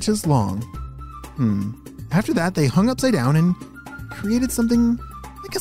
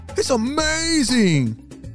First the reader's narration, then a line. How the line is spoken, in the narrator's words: shouted Jem